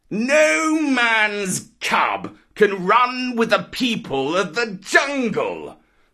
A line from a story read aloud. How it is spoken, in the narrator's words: howled Shere Khan